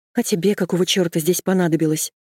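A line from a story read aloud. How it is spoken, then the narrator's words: Snapping back. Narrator (Russian): огрызнулась я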